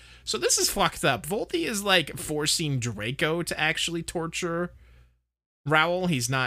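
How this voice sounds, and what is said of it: Usual voice. Nothing is said of it.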